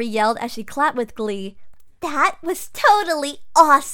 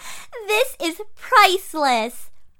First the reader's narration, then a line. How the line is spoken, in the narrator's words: Barbie yelped